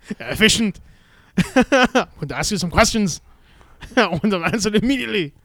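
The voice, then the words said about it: Put-on German accent. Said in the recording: “Why they have the German accent ... Because the Germans are the best”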